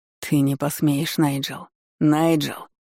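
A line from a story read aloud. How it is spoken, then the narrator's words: Growling. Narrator (Russian): Рыкнул Дану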